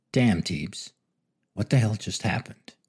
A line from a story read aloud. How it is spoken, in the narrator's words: Billy sighed and whispered to himself